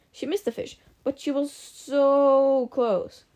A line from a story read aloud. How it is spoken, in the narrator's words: she growled